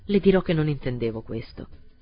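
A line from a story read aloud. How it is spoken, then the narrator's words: Cold. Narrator (Italian): continuò freddamente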